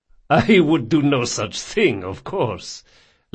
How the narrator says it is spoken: laughed Don Salvara

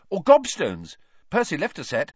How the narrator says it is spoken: he said hastily

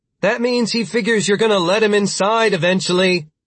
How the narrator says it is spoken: Britt the Younger shouted through the door

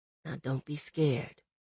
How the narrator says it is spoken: he whispered

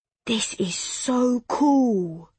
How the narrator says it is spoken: he breathed

